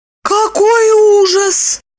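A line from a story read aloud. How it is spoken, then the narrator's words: Moaning. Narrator (Russian): простонала Липочка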